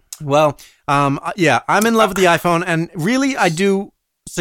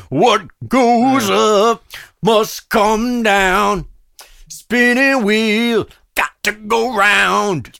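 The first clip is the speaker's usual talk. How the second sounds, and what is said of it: Sung imitation of another person's voice. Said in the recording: “It's a pretty good impression of Mr. Blood ... That was a terrible impression”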